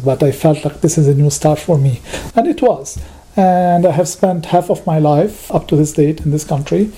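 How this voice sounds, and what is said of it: Foreign accent in English. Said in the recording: “I'm always reminded that I still have an accent ... my accent”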